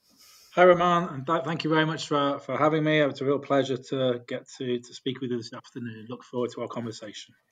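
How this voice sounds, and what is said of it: British accent. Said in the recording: “it was nice to hear a British accent ... a fellow Brit”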